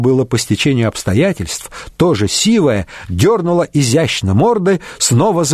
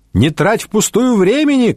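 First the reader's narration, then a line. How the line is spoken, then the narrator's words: Young woman shouting. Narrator (Russian): крикнула девушка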